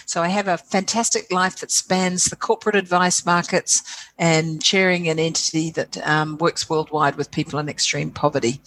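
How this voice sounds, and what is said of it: Slight New Zealand accent. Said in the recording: “I detect a little bit of an accent there ... born and bred and proud Kiwi girl, New Zealand girl”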